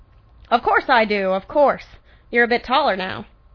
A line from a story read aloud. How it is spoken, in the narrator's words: The old man chuckled and replied